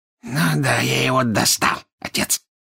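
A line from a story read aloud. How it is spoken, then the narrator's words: Hoarse laughter. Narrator (Russian): хрипло засмеялся Морфин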